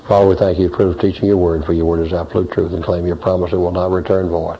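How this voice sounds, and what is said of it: Hoarse, worn-out voice. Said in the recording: “my voice is totally gone, and I've had 5 hours today”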